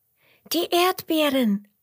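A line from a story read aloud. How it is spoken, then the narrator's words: Excited calling, two voices. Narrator (German): rufen Emmerla und Roberto aufgeregt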